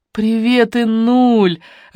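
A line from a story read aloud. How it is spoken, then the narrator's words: Joyful exclamation. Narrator (Russian): радостно вскричала Алена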